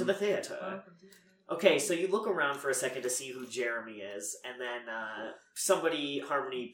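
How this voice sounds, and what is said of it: Usual voice. Nothing is said of it.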